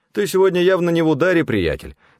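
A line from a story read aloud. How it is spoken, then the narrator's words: Forced cheerfulness. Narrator (Russian): сказал один из них, нарочито весело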